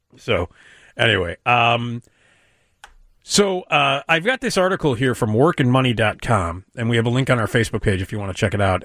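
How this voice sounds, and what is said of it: Congested, slightly hoarse voice. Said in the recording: “I sound a little weird, I'm struggling here with a little bit of a cold issue. I got the throat thing and the nose thing”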